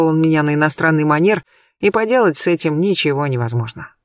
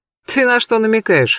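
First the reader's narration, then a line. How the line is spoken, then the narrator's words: Amused snort. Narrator (Russian): хмыкнул Олег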